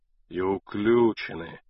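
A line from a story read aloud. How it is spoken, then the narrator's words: Sighing. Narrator (Russian): вздохнул Кондратий Степанович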